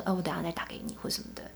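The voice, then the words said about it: Suddenly quiet, hushed voice. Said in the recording (Chinese): “声音就突然变小声说”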